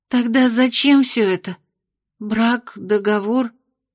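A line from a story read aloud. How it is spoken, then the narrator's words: Confused babbling, young woman. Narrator (Russian): Растерянно пролепетала девушка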